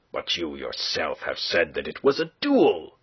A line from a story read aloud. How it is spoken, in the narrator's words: cried the lieutenant, between anger and bewilderment